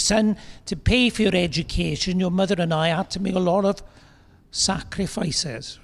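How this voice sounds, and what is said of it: Welsh accent. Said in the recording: “You've got a Welsh accent in there.”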